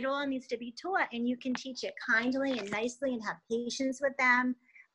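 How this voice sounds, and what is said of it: Northeastern US accent. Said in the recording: “that cute Northeastern accent”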